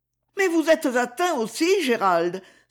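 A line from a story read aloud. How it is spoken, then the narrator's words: Terrified exclamation. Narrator (French): s'écria Lady Isabelle avec terreur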